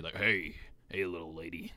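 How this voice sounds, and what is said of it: Raspy gruff biker voice. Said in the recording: “How do I talk raspy? ... that sounds like a biker ... I sound like a biker at some rest stop”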